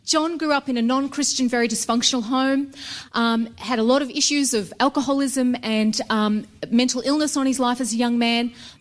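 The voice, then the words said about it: Australian accent. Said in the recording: “we're from Australia. You probably tell from the accent.”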